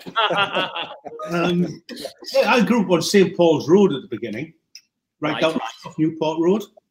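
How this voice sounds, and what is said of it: Middlesbrough (Boro) English accent. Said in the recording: “very much kind of Boro born and bred ... you haven't lost your accent. And I'm not going to either.”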